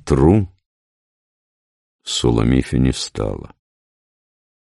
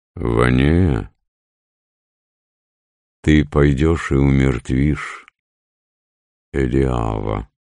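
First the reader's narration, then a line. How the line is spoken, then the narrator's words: Calm. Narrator (Russian): сказал спокойно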